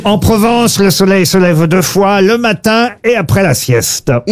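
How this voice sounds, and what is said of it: Slight put-on southern French accent. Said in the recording (French): “Vous avez utilisé un petit accent. ... parce que ça parle du midi en Provence. ... Il a l'accent.”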